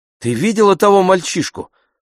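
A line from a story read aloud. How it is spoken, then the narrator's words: Female exclamation. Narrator (Russian): воскликнула она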